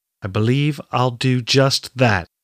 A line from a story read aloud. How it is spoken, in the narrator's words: Catrin replied